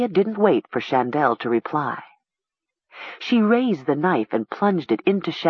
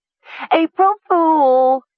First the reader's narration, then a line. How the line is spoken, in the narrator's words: she exclaimed gleefully